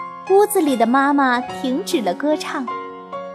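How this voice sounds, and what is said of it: Usual voice. Nothing is said of it.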